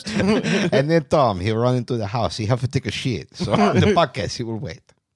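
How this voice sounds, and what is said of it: Poor Mexican-Watto style accent. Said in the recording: “This is not a good accent. ... No, not really. ... Mexican and Watto.”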